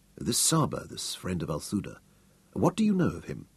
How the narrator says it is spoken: Hal asked quietly

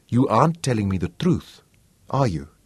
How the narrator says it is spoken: Manfred said softly

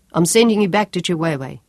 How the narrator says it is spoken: Sean told him harshly

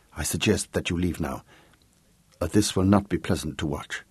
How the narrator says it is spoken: whispered the prince

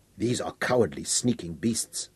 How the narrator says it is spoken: Aberley said, with hatred in his tone

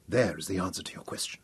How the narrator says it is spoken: he whispered

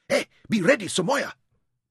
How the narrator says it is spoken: Bakat called urgently

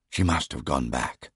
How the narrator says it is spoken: I whispered to myself

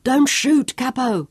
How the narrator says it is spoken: yelled at him

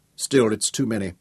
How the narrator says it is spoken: said Nicholas

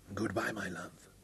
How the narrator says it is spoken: he whispered

